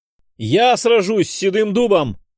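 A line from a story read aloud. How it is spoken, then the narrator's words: Loud shout for all. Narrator (Russian): выкрикнул, чтобы все окружающие смогли расслышать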